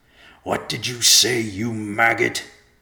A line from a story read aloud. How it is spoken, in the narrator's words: Irontooth growled